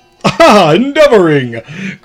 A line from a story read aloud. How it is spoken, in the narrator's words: cried the tyrant